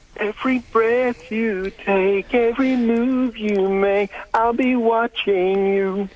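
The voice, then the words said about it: Singing in falsetto. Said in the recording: “That was falsetto.”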